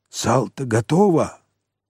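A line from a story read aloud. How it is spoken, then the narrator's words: Whispered question. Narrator (Russian): спросил его шепотом Кирюха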